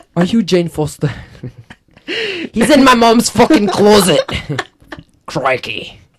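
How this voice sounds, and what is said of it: Put-on Australian accent. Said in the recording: “I'm doing your Australian accent.”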